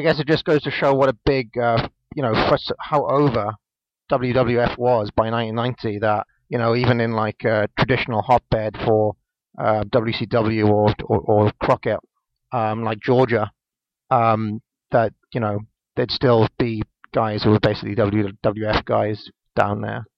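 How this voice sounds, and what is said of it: British accent. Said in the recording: “I'm from the UK, as you may be able to tell from my accent”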